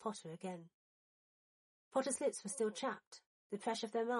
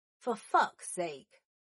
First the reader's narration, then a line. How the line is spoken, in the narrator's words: Black said loudly